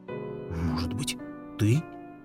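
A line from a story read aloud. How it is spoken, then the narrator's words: Whispered reply. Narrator (Russian): шепотом ответили собаки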